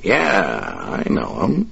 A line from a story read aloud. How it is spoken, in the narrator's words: Dave replied, his voice thick with contempt